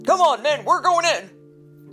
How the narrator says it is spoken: Sarge shouted

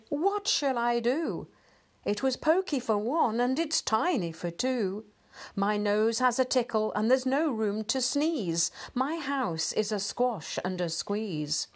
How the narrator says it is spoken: The little old lady cried

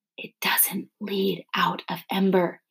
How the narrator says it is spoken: he whispered

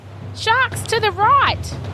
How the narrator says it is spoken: Oskar cried anxiously

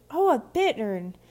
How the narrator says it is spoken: Viola exclaimed

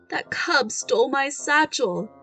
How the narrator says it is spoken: he moaned

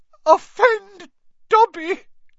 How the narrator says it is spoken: choked the elf

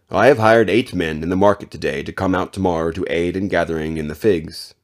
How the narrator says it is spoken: he said

